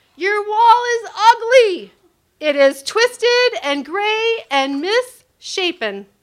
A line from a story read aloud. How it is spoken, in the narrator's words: someone yelled from the other side